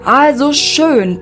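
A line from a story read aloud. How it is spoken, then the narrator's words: Thundering. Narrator (German): donnerte Mr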